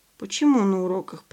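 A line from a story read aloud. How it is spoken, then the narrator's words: Grumbling. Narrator (Russian): пробурчал Леня Бойцов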